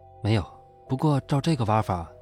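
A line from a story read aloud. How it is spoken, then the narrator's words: Calm, flat reply. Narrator (Chinese): 算命先生淡淡的回答道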